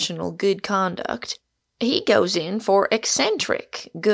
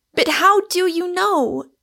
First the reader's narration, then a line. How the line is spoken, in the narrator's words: cried Rosamond desperately